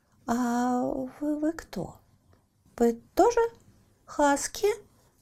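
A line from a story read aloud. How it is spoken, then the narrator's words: Uncertain question. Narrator (Russian): неуверенно спросил Лаки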